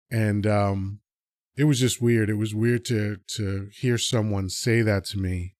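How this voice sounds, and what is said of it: Neutral weatherman-like voice. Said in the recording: “I know I sound like a weatherman. ... doesn't have a Spanish accent.”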